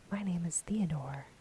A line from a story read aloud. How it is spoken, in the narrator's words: replied